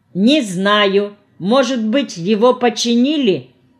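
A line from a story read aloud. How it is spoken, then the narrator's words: Laughing to tears. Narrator (Russian): хохотал до слез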